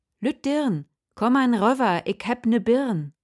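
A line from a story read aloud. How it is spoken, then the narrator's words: Calling out. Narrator (German): so rief er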